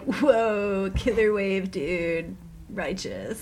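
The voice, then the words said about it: California surfer bro voice. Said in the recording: “the surfer bro that's like”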